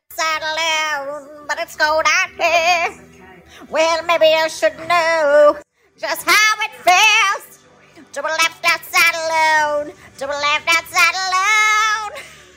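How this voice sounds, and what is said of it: Sung impression of a pop singer. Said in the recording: “my rendition of, my impression of Anastasia Left Outside Alone ... You cannot tell the difference.”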